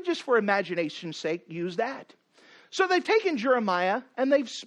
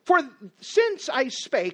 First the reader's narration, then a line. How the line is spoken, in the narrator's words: I cried out